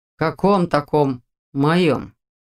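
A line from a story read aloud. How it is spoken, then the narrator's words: Muffled indignation. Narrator (Russian): Все так же глухо возмутился Дементьев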